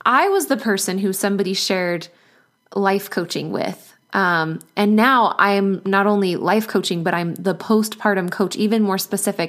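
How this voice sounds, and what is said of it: Choked up, emotional voice. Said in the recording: “I'm getting a little choked up right now... I'm a little emotional.”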